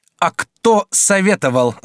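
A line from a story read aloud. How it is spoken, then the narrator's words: Shouting. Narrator (Russian): закричал Франциск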